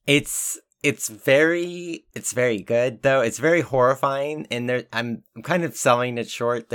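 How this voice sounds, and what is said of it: Very hoarse voice. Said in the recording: “I'm just so hoarse right now. I'm three horses stacked on top of each other.”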